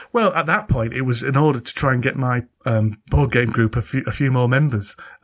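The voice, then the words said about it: Broad Yorkshire accent. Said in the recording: “this broad Yorkshire accent”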